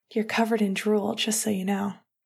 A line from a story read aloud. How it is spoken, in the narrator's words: he whispered